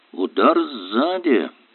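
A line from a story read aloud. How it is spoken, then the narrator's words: Professor's mutter. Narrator (Russian): пробормотал профессор Ярдли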